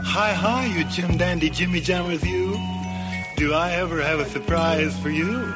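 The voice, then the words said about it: Weird character voice. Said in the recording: “that weird voice came back on again”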